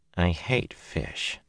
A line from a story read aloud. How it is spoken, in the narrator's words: muttered under her breath